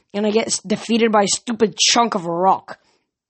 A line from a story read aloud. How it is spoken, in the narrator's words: she growled